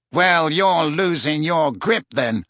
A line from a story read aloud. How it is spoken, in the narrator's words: sneered Malfoy